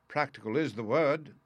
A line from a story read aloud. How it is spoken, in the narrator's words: said he, with another hateful chuckle